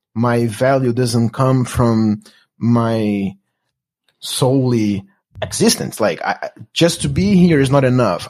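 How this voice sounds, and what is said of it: Latino-accented English. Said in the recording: “the experience of being Latino in the US ... my accent”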